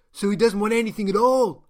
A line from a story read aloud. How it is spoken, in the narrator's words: shouted the man from Gaia